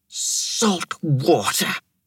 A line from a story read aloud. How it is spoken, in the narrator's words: Thera muttered